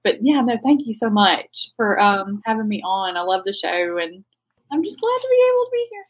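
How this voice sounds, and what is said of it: Strong rural American accent. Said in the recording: “I do love your accent. It's awesome. It's so fun. ... I have an inner trailer park ... The accent. Because, you know, it's nuts.”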